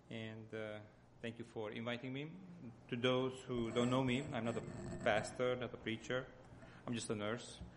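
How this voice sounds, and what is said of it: Hungarian accent. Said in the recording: “my accent comes from Hungary”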